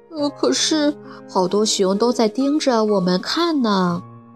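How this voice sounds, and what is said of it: Soft, quiet character voice. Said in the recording (Chinese): “咪咪小声说”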